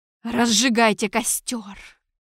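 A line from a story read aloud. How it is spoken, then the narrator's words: Hissing. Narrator (Russian): прошипел Торквемада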